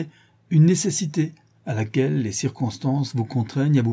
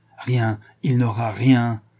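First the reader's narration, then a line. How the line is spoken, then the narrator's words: Exclaimed. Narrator (French): s'écria-t-il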